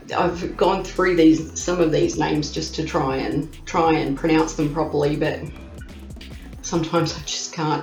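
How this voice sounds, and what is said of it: Broad Australian accent. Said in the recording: “I am an Aussie. You can hear that Aussie accent. I have what they call the Bogan accent”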